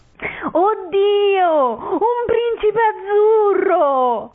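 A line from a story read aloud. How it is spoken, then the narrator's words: Very excited shriek. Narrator (Italian): urlò eccitatissima Gigetta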